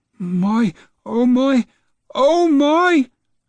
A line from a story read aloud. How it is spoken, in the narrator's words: Grandma cried